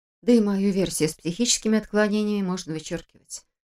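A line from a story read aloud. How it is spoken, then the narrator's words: Sighed. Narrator (Russian): вздохнула Саша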